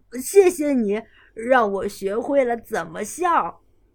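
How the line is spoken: Smiling. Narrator (Chinese): 大熊笑着说

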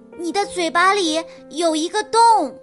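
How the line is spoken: Loud shout. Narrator (Chinese): 多纳蒂斯大叫起来

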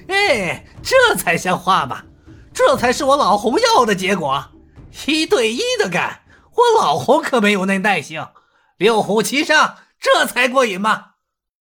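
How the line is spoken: Hearty laughter. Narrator (Chinese): 洪金宝哈哈大笑

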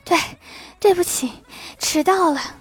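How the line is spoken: Breathless stammering. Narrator (Chinese): 说话都不利索的疲惫程度，气喘吁吁地说

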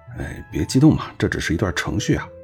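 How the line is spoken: Muttering. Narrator (Chinese): 瓦茨咕哝道

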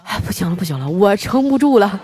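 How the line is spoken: Panting heavily. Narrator (Chinese): 那教练哈喘着粗气说

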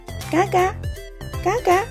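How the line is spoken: Duckling quacking. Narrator (Chinese): 小鸭子叫了叫

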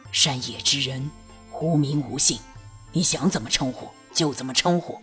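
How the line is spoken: Hoarse voice. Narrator (Chinese): 那嘶哑的声音道

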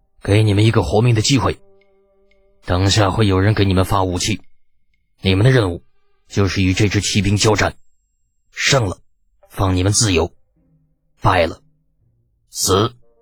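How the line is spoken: Cold voice. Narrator (Chinese): 李靖冷声道

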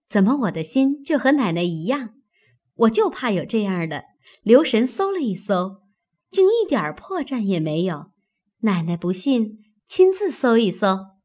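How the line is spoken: Sinister laugh. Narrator (Chinese): 阴笑道

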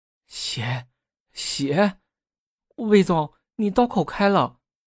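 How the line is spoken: Stammering. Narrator (Chinese): 助理…结结巴巴的说

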